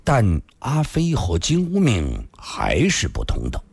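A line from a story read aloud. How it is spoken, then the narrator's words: Slow, deliberate after silence. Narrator (Chinese): 李寻欢默然良久，缓缓地说道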